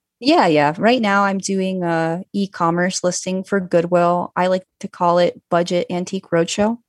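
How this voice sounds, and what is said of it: Calm, flat monotone voice. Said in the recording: “I'm super monotone level ... You're just calm enough ... I can't tell if you're chill or if you're monotone”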